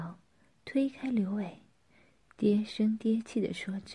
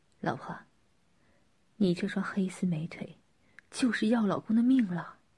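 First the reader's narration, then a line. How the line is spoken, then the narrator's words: Smiling, cheerful. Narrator (Chinese): 刘伟笑盈盈地说着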